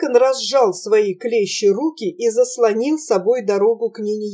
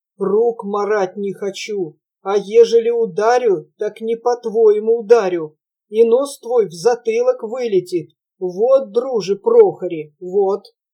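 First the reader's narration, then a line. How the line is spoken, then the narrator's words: Hostile deep bass. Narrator (Russian): Враждебно глядя в глаза его, дьякон басил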